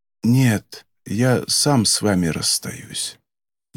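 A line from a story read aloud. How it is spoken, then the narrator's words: Barely audible. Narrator (Russian): едва слышно промолвил Кафка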